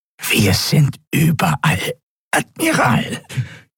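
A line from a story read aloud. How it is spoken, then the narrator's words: Croaking, strained nasal voice. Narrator (German): krächzte die gepresste, nasale Stimme des Draxyl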